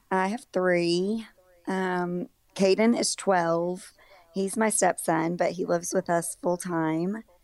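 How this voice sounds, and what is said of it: Raspy, rough-sounding voice. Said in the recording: “My voice sounds like I'm not, but I really don't feel bad. I just sound bad. ... Just a little raspy.”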